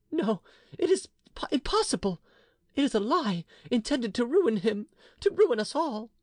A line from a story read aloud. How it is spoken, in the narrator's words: she cried